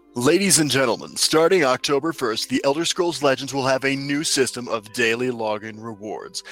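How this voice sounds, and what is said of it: Radio announcer voice. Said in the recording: “I'll read it in radio announcer voice”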